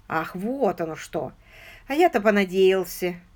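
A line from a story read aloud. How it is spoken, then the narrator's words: Quiet sigh. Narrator (Russian): Священник негромко вздохнул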